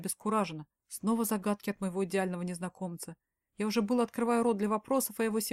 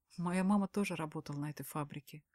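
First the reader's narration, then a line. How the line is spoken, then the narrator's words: Sad smiling voice. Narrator (Russian): грустно улыбается Данил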